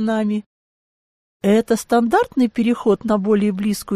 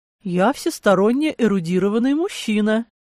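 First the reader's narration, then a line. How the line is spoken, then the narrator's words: Somewhat tedious correcting tone. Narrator (Russian): Несколько занудным тоном поправил меня немец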